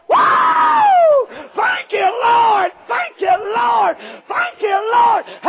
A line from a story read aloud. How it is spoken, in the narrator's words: heard her go to shouting